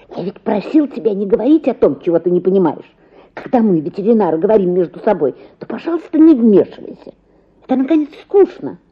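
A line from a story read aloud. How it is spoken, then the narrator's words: Angry hiss. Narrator (Russian): шипел сердито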